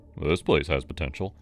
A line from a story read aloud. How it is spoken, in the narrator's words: he grunted